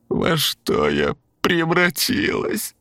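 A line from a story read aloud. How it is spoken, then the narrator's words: Tearful plaintive wail. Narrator (Russian): Сквозь слезы жалобно протянул голос крайней койки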